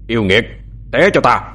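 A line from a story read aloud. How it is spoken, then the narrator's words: Shouted command. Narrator (Vietnamese): Vừa quát, thâm dông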